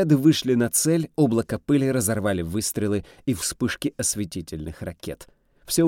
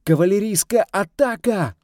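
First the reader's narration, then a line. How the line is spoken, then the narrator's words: Shouted out. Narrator (Russian): выкрикнул Санджев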